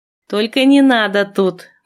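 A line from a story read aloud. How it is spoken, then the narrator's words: Contemptuous snort. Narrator (Russian): презрительно фыркнула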